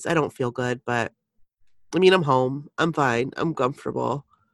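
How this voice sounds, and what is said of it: Sick, unwell-sounding voice. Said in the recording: “I don't feel good still. You guys can hear it in my voice.”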